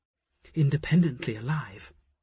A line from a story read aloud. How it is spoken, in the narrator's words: Asher breathed in Jophiel's ear